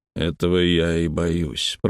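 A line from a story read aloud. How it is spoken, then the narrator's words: Grumbling. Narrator (Russian): пробурчал Малдон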